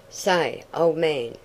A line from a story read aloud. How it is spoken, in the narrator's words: exclaimed Ned